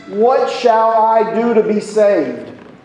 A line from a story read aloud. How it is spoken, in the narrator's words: many verbally, loudly cried out during the sermon